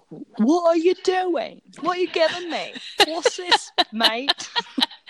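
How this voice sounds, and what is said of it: Put-on Cockney accent. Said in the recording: “So he's a cockney man. ... it's a good accent.”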